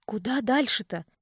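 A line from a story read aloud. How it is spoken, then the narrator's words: Hissed. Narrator (Russian): прошипела я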